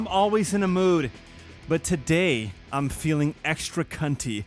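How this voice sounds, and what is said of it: Usual voice. Nothing is said of it.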